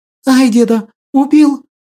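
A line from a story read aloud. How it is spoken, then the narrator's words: Frightened shriek. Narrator (Russian): Испуганно взвизгнула Василинка, не ожидая подобного развития сюжета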